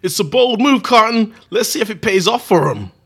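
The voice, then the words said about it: Put-on American accent. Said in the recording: “Great American accent.”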